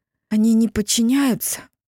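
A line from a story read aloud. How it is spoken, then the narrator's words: Breathed out. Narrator (Russian): выдохнула Тисса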